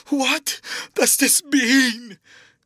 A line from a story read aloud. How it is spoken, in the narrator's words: cried Hallward at last